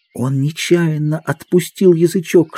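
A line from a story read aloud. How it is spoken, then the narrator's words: Whispered. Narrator (Russian): шепнул Мэтчем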